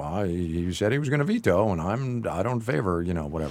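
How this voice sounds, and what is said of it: Imitates another person's voice. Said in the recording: “my bad Mitch McConnell impersonation ... I thought that was a great Mitch McConnell impersonation”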